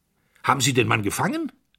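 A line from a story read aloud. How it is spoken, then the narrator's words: Sharp question. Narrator (German): fragte der Oberst scharf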